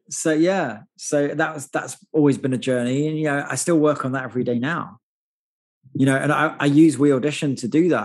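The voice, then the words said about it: Non-American accent. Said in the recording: “even though I've lived in America now for 15 years, as you can hear, I haven't properly lost my accent at all”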